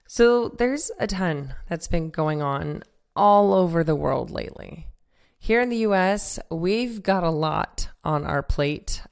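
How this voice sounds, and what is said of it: Voice sounds a little off. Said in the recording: “My voice may sound a little off right now, but it'll come back soon”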